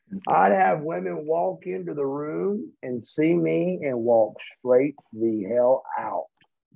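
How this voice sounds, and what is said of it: Southern US accent. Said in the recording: “southern good-mannered accent”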